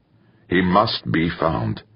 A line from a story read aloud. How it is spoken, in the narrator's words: said firmly